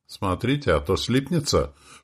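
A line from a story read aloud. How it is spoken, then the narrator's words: Mocking snort. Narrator (Russian): хмыкнул братец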